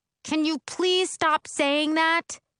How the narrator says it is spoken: yell back

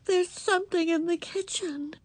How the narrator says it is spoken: Ramona's voice quavered

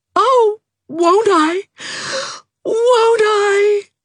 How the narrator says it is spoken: cried Nora so shamelessly

